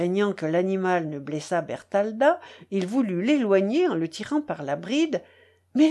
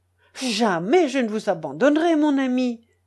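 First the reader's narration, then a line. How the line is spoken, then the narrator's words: Exclaimed. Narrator (French): s'écria Huldbrand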